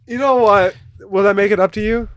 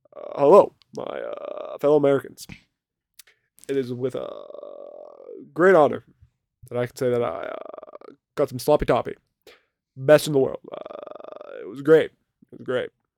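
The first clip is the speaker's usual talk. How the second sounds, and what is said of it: Barack Obama impression. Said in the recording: “your Obama role play, your Obama impression”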